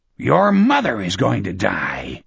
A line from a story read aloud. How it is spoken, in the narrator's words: Sloat snarled back at him